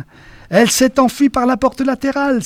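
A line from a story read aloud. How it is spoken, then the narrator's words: Echoing exclamation. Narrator (French): s'écria quelqu'un en écho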